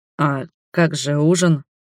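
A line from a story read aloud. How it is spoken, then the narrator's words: Confused question. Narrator (Russian): спросил он растерянно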